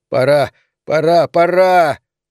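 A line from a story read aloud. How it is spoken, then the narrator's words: Straining to shout. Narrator (Russian): Он силился крикнуть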